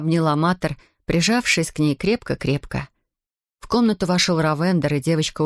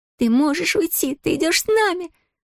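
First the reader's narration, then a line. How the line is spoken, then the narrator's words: Squeaky voice. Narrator (Russian): пропищала Зия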